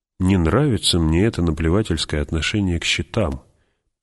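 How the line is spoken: Muttering. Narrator (Russian): пробормотал герцог

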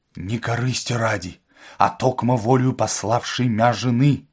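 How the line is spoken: Muttering. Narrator (Russian): бормотал

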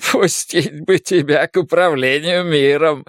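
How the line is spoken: Sobbing laughter. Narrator (Russian): рыдал Десмонд, смеясь

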